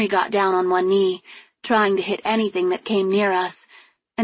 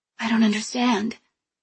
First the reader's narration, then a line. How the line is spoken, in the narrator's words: mumbled